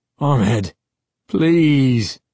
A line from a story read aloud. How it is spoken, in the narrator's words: Uncle Ben cried in a whining, frightened tone I'd never heard from him before